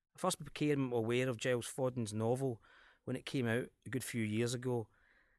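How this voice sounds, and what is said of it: Scottish accent. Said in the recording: “The Last King of Scotland ... as the title and my accent might give away”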